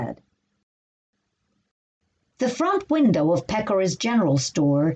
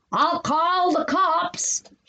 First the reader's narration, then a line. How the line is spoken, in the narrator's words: he yelled